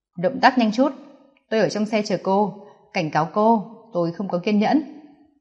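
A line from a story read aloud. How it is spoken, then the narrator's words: Cold. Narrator (Vietnamese): Nam Cung Kình Hiên lạnh lùng nói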